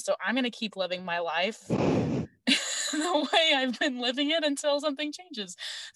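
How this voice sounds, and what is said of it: Annoying guy voice. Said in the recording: “a very, very good impression of random guy on Twitter ... annoying guy voice”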